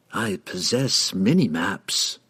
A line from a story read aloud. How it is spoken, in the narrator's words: the woman replied coolly